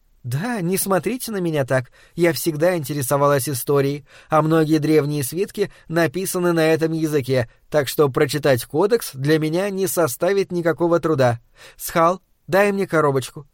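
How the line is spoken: Requesting. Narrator (Russian): попросила она

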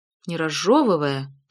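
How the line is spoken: Repeated. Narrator (Russian): повторила Карен

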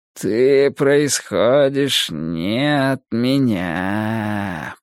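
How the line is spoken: Almost tender drawl. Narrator (Russian): протянул он почти нежно

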